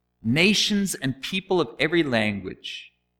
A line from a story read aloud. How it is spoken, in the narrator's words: Then the herald loudly proclaimed